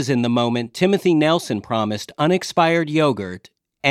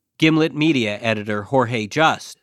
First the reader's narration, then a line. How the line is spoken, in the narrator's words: Stevie says